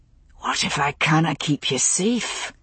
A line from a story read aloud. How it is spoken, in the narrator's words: he murmured at last